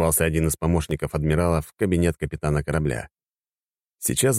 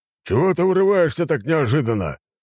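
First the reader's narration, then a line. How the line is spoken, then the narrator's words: Bark. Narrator (Russian): рявкнул Федор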